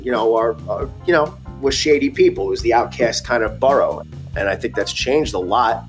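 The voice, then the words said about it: Brooklyn accent. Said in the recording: “I don't know if you guys can hear his accent, but he's definitely got the Brooklyn accent.”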